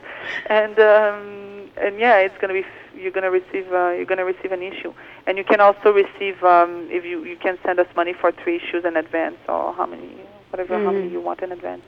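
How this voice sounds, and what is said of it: Non-native English accent. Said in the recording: “excuse my accent”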